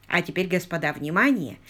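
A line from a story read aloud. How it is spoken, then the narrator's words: Solemn announcement. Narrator (Russian): торжественно произнес он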